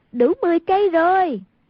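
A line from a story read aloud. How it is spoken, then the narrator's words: Exclaimed. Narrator (Vietnamese): Hoàng Dung kêu lên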